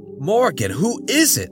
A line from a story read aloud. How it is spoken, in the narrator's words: John yelped